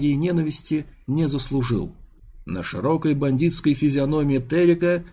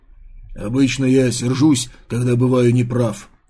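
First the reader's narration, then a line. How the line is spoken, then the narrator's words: Deep bass voice. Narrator (Russian): пробасил контрабандист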